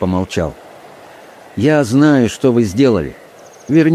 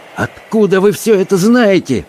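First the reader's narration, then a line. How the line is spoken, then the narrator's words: Shouted. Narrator (Russian): крикнул он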